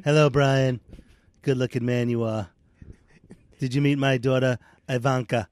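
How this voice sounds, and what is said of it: Imitates another person's voice. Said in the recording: “President Trump. ... Trump.”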